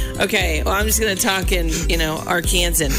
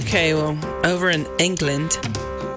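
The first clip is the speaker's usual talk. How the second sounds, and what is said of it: Poorly attempted English accent. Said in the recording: “You like that accent? I can't do it. ... It just went bad.”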